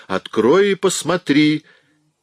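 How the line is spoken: Yelling. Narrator (Russian): заорала на него Шила

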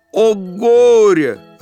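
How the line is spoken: Fish yelling. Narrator (Russian): рыбка заорала

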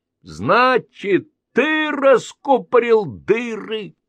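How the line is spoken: Shouting. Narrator (Russian): крикнула Анечка

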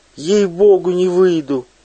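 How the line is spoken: Shrill squeal. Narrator (Russian): взвизгнула Пелагея

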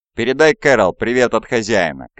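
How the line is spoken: Shouting after someone. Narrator (Russian): крикнул Рэй ему вслед

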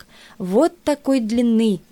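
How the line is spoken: Sad, man. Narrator (Russian): печально сказал баскетболист

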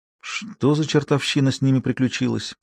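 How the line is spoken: Mutter. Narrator (Russian): пробормотал

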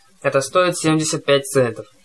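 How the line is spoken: Grumbled. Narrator (Russian): проворчал тот

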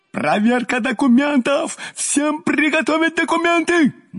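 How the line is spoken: Frenzied yelling. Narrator (Russian): Неистово орал наш прежде добродушный участковый

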